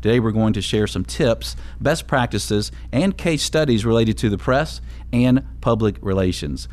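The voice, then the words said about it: Polished radio-announcer voice. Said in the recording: “your radio voice, man, stunning”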